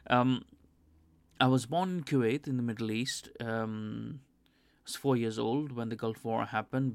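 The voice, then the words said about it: Weird accent. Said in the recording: “why I have a weird accent”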